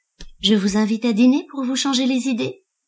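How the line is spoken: Cheerful question. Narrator (French): demanda-t-il d'un ton enjoué

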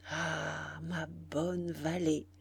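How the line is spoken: Murmuring. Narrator (French): murmura-t-il

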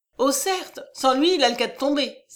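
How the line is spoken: Exclaiming. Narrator (French): s'écria Coralie

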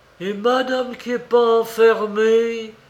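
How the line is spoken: Exclaimed. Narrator (French): s'écria le concierge

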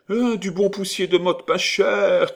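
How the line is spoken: Shouting promptly. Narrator (French): cria aussitôt Peluche

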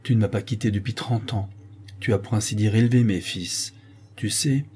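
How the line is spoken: Deep voice. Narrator (French): ajoute le duc d'une voix profonde

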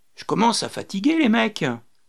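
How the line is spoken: Tired exclamation. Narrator (French): s'exclama Rémy

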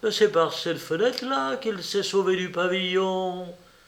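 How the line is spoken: Exclamation. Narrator (French): s'écria Rouletabille

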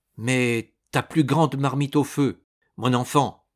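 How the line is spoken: Exclaimed. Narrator (French): s'écria David

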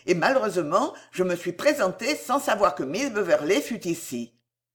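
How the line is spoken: Quick addition. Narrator (French): ajouta vivement Belfield

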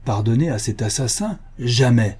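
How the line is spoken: Exclaiming. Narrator (French): s'écrie le voïvoda

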